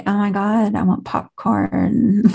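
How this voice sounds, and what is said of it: Exaggerated California accent. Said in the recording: “that's the real accent in California”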